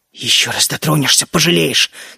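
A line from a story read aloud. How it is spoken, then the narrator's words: Hissed through gritted teeth. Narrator (Russian): Не сдержавшись сквозь зубы, прошипел я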